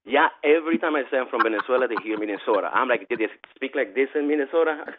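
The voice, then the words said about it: Venezuelan accent in English. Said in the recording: “with this accent, every time I say I'm from Venezuela”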